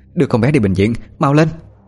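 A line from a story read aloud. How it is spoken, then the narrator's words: Calm but shouting. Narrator (Vietnamese): Bà Tú là người duy nhất giữ được bình tĩnh mà hét lên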